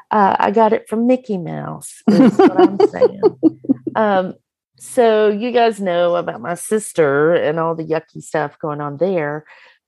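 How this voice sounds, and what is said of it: Slightly croaky, hoarse voice. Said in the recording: “I sound a little croaky”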